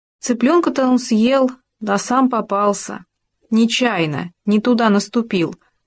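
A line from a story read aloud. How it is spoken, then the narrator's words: Plain, gopher speaking. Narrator (Russian): сказал суслик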